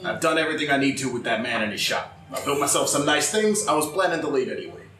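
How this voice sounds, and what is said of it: Inconsistent put-on character accent. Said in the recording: “What's this accent going ... from? ... It changes every other sentence. ... I try to make a voice last all of 30 seconds and it's just me talking.”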